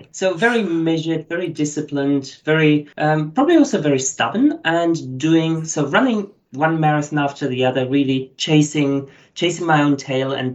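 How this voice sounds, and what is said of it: German accent. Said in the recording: “As you hear from my accent, I'm not originally Australian. So my background is German. Lots of people might have thought I'm South African, but coming from Germany.”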